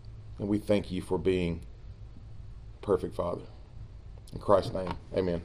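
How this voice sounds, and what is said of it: Scratchy throat. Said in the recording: “I got a little bit of a scratchy throat and a cough.”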